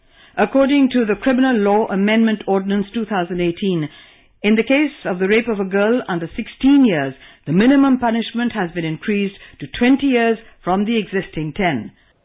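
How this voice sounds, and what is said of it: BBC-style British newsreader accent. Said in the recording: “You can hear what she's inherited from the BBC tradition ... Not only in her accent”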